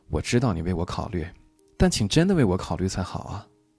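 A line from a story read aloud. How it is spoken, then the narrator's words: Sighing. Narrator (Chinese): 他最后总会叹一口气，然后说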